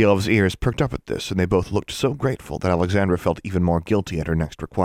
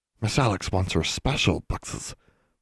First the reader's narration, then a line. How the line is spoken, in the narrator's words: whispered Bran